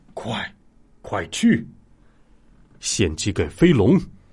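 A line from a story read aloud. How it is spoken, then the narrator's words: Faint, distant leader's voice. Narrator (Chinese): 首领模样的人声音隐隐约约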